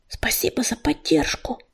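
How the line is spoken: Whisper. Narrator (Russian): шепнул он

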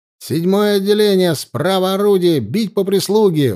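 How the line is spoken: Shouted command at full strength. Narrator (Russian): выкрикнул он, что было сил

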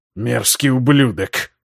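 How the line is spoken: Hissed through teeth. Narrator (Russian): прошипел сквозь зубы Генрих

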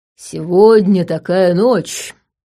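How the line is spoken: Quiet, solemn. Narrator (Russian): Тихо и как-то торжественно начал Степан

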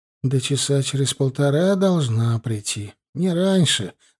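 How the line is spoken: Sad. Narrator (Russian): грустно сказал Мишка

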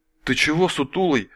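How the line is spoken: Frightened rapid patter. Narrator (Russian): Мгновенно побелевший сталкер испуганно скороговоркой затараторил

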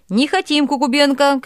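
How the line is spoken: Shouting. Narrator (Russian): кричала другая

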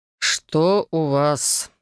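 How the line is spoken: Tired question. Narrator (Russian): устало спросил ректор

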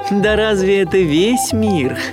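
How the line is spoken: Loud laughter. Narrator (Russian): расхохоталась мама-утка

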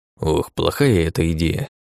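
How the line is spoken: Muttered under breath. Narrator (Russian): буркнул себе под нос гном

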